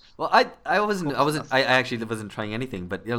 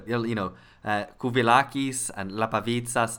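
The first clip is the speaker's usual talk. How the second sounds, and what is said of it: Attempted Greek pronunciation of names. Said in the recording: “that's me trying to do Greek”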